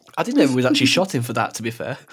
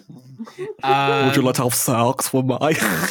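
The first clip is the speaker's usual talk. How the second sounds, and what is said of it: Sloppy put-on accent. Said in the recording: “Sorry, that was a sloppy accent.”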